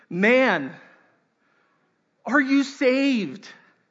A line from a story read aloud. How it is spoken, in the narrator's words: he yelled